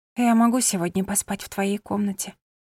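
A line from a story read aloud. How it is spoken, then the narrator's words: Resigned whisper. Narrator (Russian): прошептала она, уже зная ответ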